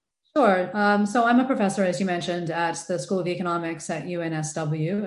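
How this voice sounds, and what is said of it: American accent. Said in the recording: “I'm American, as you can probably tell from the accent”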